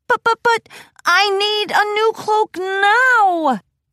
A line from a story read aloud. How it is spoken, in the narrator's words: Trixie whined pathetically